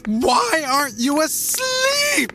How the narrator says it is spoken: shrieked in a shrill tone I'd never heard from her before

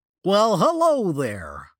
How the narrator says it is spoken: the dinosaur said in an overly cheerful voice

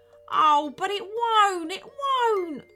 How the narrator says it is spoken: wailed the captain

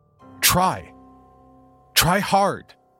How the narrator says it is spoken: yelled

